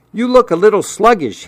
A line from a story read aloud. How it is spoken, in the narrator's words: he yelled